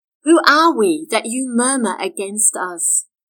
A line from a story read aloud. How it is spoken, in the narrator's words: Moses said